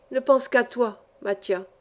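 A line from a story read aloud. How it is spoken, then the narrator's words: Emotional, moved voice. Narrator (French): dis-je d'une voix émue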